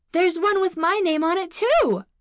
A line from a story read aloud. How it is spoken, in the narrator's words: exclaimed Ashira